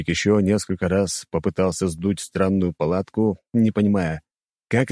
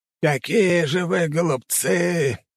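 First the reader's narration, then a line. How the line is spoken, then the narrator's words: Old man's groan. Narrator (Russian): простонал старик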